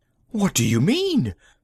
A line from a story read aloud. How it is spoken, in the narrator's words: Magnan gasped